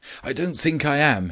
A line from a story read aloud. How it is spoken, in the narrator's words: panted